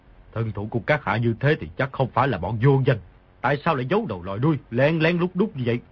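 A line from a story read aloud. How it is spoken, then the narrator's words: Cold. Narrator (Vietnamese): Phùng Tích Phạm lạnh lùng nói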